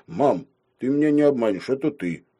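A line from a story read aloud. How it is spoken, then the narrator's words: Sad, mother's natural voice. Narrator (Russian): мама грустно сказала уже собственным голосом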